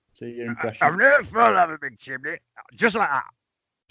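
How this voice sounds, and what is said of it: Fred Dibnah impression, northern English accent. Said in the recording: “good old Fred... Let ... do them. He seemed to come alive then... Let's have a look at your accent then with this one... Wrong county. Other one.”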